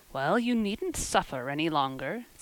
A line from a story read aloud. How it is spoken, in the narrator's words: said Marilla sarcastically